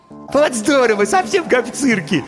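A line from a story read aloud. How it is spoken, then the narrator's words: Giggling. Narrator (Russian): хихикнул Ванька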